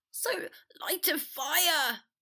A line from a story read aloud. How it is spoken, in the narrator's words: Potter choked